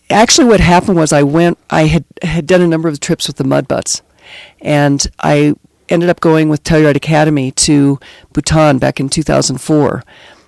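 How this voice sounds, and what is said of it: Hoarse, croaky voice. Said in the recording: “apologize for my voice. I have the Telluride crud a little bit ... forgive the fact that I sound like a frog.”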